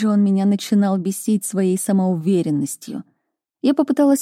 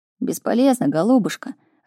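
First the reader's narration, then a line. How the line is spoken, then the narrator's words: Upset mutter. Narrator (Russian): расстроенно пробормотал Мур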